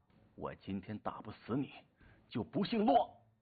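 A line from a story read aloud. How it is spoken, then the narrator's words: Furious, through gritted teeth. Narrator (Chinese): 洛兴国大怒，阴沉沉地咬牙道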